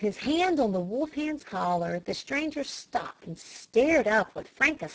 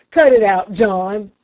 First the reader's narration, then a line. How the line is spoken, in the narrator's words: he thundered at the coach dog